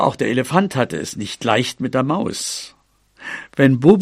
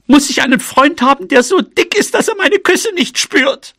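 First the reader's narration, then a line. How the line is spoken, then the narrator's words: Called out. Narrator (German): rief sie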